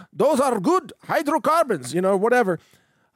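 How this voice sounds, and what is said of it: Put-on Punjabi Indian accent. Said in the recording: “with the Punjabi accent or whatever. I'm not sure how that goes. I'm not trying to mock Indian people, but I do try to put in a little bit of character voice”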